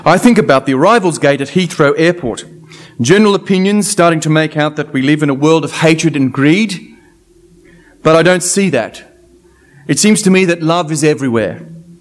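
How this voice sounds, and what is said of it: Plummy English accent. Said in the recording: “I'm going to put on my very best plummy English accent”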